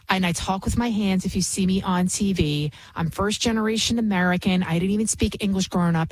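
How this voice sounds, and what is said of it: Bronx New York accent. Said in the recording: “I can be from the Bronx. Obviously, you can hear it in my accent,”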